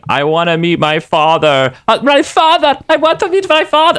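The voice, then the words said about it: Cartoon character's put-on accent. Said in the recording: “doing the Nightcrawler voice ... you could do the Nightcrawler accent”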